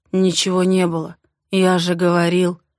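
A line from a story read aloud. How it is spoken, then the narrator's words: Muffled speech. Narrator (Russian): проговаривает глухо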